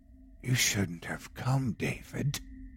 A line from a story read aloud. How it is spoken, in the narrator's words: whispering into my ear